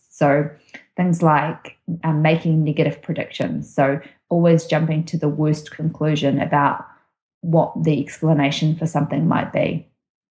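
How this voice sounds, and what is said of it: New Zealand accent. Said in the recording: “it's accent. Yeah, there's certain words that come out different. ... you're from New Zealand”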